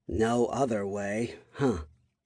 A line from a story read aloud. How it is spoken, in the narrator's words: she muttered to herself